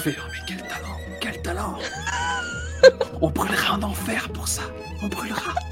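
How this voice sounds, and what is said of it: Whispering. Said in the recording (French): “en chuchotant”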